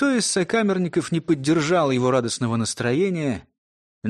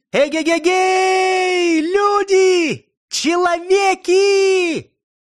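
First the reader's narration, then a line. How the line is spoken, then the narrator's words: Sudden shout. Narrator (Russian): Вдруг как закричит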